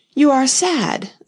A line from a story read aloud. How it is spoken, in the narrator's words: the knight said in an anxious tone